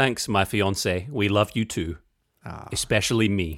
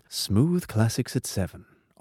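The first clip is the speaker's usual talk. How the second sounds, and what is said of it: Smooth radio announcer voice. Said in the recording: “radio voice is so smooth ... Can you give us a little bit of that smooth radio voice”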